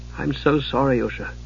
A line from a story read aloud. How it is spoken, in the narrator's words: Palin said gently